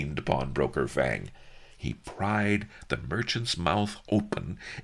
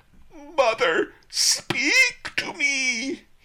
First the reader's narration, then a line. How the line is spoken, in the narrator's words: he howled